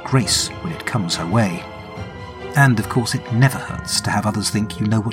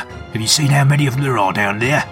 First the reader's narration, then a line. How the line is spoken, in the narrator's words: Crater grumbles